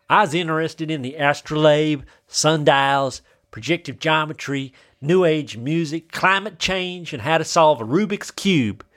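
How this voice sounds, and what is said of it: Attempted southern accent. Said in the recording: “That's just me doing a southern accent.”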